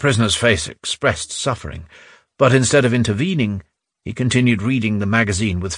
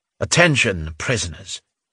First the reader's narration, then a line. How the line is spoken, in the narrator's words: the Major General said menacingly